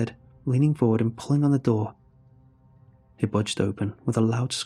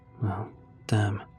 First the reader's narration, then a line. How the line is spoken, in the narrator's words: muttered Jake